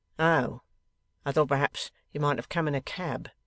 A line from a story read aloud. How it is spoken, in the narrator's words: remarks in a dry tone